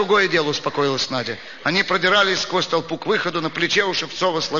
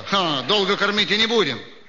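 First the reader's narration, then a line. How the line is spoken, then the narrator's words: Plain. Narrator (Russian): сказал Шевцов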